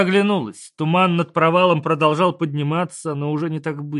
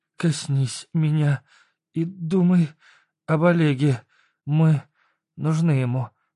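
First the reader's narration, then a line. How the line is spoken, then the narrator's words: Breathed words. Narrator (Russian): выдохнула Света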